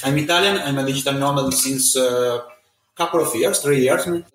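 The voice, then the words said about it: Italian accent. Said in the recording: “I'm Italian. You can hear my accent”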